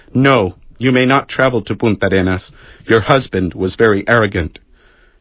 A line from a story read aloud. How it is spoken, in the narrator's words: He received her stiffly, saying